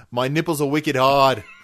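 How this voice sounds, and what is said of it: Put-on Boston accent. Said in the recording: “the Boston touchstone”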